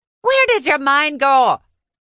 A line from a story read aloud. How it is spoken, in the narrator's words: Nev shouted